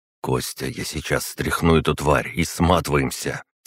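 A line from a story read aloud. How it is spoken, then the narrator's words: Quiet but convinced. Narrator (Russian): Тихо, но с убежденностью в голосе проговорил я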